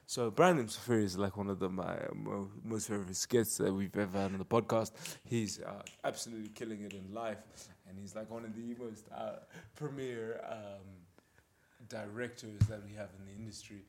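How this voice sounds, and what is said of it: Deep radio announcer voice. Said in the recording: “radio voice ... The deep voice, man. The deep voice came through again, man.”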